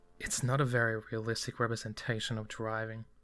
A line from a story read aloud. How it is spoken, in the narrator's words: the blonde boy sighed